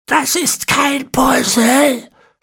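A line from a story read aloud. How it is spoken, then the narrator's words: Hissed angrily. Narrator (German): fauchte Ezekiel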